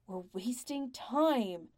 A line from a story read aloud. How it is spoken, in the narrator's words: Tom adds angrily